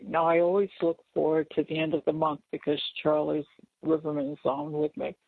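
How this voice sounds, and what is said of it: Hoarse, failing voice. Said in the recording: “As you can hear, my voice is going ... if I lose my voice”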